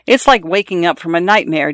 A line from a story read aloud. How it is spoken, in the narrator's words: Daisy Buchanan said